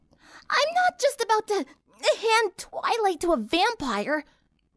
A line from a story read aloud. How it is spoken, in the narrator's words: Rainbow shouted